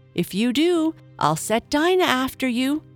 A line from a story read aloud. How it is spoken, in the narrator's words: Alice called out as loud as she could